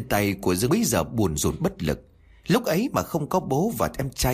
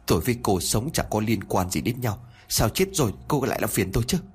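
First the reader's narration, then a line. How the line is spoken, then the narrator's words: Trembling voice. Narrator (Vietnamese): giọng của cậu run rẩy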